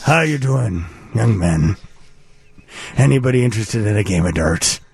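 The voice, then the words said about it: Fake Irish accent. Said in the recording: “I would fake an Irish accent. just to be interesting.”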